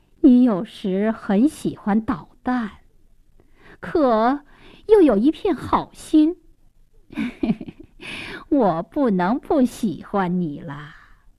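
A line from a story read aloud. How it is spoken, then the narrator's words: Smiling, fond. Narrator (Chinese): 公爵夫人笑眯眯地 说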